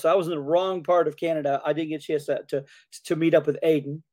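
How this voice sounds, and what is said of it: Hoarse voice. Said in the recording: “I'm still hoarse.”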